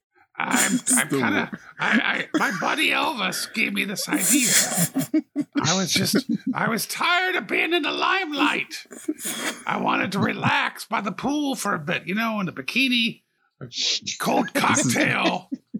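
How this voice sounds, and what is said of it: Imitates another person's voice. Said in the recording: “This is the worst ... Best impression on this whole show.”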